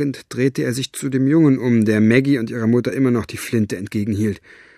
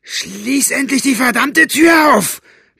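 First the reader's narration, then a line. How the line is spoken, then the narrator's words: Bellowed. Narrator (German): brüllte Buster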